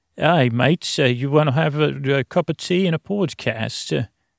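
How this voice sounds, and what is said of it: Put-on English or Australian accent. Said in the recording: “That's my little accent. ... I think I got to tweak it for England or Australia. ... I got to get back to my own voice now”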